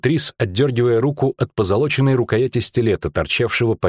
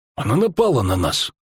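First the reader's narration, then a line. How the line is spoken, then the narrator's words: Gruff mutter. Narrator (Russian): буркнул чародей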